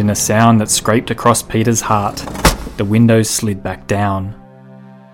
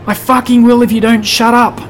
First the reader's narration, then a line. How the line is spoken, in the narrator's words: the man yelled back